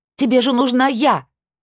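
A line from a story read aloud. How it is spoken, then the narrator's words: Angry shout. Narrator (Russian): Закричала рассерженно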